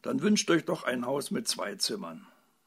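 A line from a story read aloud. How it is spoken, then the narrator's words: Indignant call. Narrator (German): rief die Fee ungehalten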